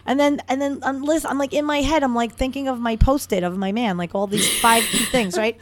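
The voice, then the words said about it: New York accent. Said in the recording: “do I hear a New York accent?”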